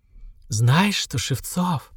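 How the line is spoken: Whisper in ear. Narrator (Russian): прошептала я ему на ухо

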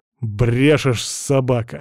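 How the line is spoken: Scoffing snort. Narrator (Russian): хмыкнул

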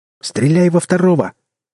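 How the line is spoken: All-out shout. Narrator (Russian): со всей дури крикнул я

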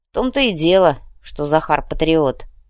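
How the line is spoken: Grumbling. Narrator (Russian): проворчал Артем

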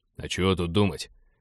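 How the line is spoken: Grumbling commander. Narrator (Russian): проворчал командир абордажников

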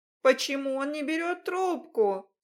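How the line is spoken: Shouting again. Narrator (Russian): снова закричала я

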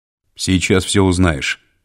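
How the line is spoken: Rough reply. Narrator (Russian): грубо ответил второй сопровождающий

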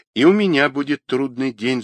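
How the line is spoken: Sighing. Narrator (Russian): вздохнул Павел

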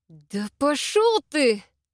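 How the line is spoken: Hissing. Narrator (Russian): зашипела

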